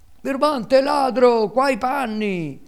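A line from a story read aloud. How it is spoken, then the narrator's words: Two unhappy boys yelling. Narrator (Italian): urlavano i due infelici garzoni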